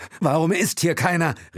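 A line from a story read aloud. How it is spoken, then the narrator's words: Called out. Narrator (German): rief Will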